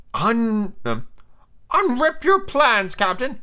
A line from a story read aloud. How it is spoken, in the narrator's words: he cried eagerly